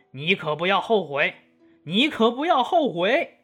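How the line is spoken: Angry. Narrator (Chinese): 僧人愤怒起身说道

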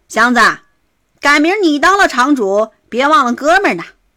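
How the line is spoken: Teasing call from onlookers. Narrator (Chinese): 邻桌的人看出便宜来，有的伸着脖子叫

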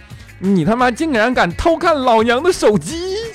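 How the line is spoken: Tearful, exhausted shout. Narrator (Chinese): 怪叔叔他媳妇儿热泪盈眶，就用尽最后的力气喊了一句

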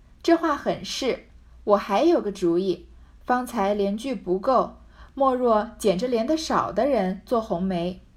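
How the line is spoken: Laughing. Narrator (Chinese): 黛玉笑道

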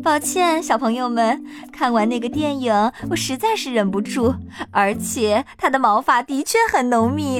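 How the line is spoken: Grinning, laughing. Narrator (Chinese): 他咧开嘴笑着说

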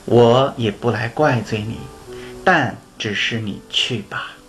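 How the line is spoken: Sighing, resigned. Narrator (Chinese): 祖师便叹了口气，说道

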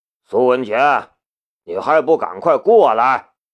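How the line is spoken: Cold voice. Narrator (Chinese): 声音已经冷了下来

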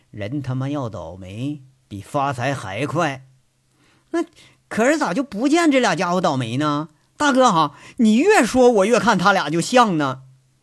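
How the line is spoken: Laughing. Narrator (Chinese): 杨伟突然笑了，他笑着说了

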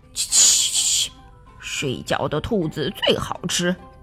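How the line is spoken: Quiet muttering. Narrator (Chinese): 有人小声嘀咕

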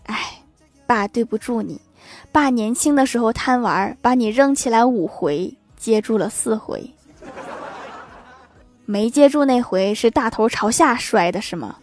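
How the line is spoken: Sighing. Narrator (Chinese): 郭大侠叹了一口气说

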